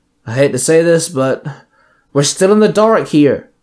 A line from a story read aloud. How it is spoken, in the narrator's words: Lip sighed